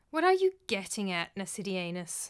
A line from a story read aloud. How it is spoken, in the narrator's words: said the second voice wearily